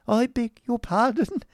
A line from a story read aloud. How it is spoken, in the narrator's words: faltered Miss Squeers